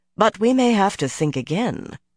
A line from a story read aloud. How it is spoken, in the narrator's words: Melaine went on calmly